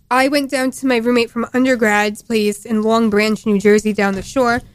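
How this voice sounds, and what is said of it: New Jersey accent. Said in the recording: “I'm sorry, my accent's coming in. ... I'm from New Jersey.”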